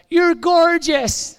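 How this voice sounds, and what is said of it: Imitated thick Invernessian Scottish accent. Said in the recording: “really thick Invernessian accent ... That's my Invernessian accent.”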